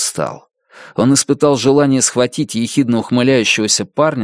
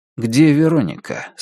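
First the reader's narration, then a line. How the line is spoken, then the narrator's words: Calm question. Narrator (Russian): спокойно спросил Джек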